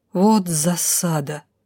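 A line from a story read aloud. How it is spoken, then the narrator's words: Strained, forced out. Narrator (Russian): выдавила не без труда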